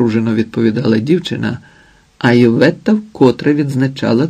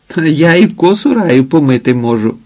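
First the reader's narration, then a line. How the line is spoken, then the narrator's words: Laughing. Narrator (Ukrainian): сміялася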